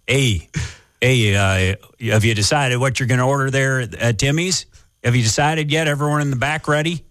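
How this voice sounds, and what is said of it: Exaggerated rural Canadian accent. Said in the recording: “a weird accent when you have a Canadian accent already ... That's a Huron County accent.”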